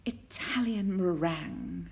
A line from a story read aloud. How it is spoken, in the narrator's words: Aziraphale sighed happily